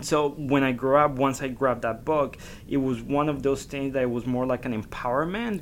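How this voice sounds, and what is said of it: Slight foreign accent. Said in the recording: “I have a slight accent when I talk ... a lot of people used to make a lot of fun of me for the way that I would talk”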